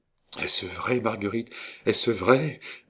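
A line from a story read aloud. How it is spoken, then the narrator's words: Stammered. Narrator (French): balbutia Roland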